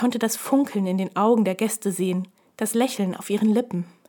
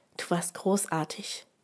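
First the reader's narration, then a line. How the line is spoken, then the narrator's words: Gentle. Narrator (German): sagte ich sanft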